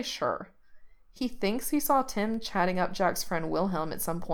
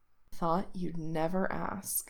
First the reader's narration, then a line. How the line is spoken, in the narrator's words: Reese purrs